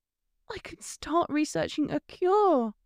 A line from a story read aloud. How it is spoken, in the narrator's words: said in a panicked voice